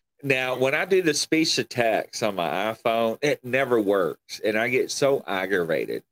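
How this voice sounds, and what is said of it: Mild country accent. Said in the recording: “I can hear an accent ... You've got that kind of country accent. Not hillbilly”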